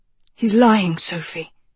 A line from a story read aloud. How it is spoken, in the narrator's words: Agatha breathed